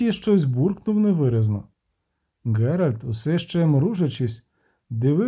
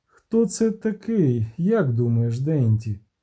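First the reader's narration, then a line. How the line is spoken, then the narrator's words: Gentle question. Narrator (Ukrainian): лагідно запитав Шапел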